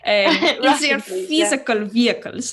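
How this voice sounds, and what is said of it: Mock German accent. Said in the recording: “Would you like it if I did it in a German accent? Would that help?”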